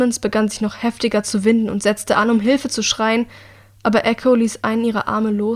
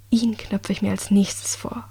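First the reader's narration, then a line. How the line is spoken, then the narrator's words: Murmuring. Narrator (German): raunte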